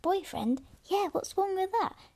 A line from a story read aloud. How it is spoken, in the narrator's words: Javik gasped